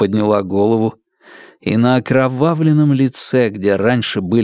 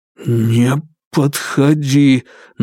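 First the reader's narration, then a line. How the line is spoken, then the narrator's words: Forced out, strained. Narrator (Russian): наконец выдавил он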